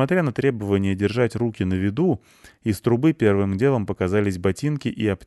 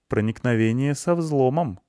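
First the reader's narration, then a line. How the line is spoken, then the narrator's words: Neutral hinting tone. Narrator (Russian): нейтральным тоном намекнула Лайса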